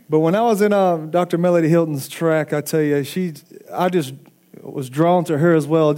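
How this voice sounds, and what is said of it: Southern American accent. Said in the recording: “they picked up on a southern accent. ... I am from the country of Alabama.”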